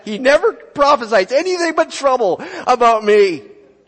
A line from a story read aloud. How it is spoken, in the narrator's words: the king of Israel exclaimed to Jehoshaphat